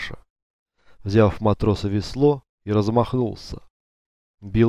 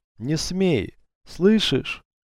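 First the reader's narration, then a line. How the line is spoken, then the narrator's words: Hoarse hateful wheeze. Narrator (Russian): Захрипев от ненависти, Алексей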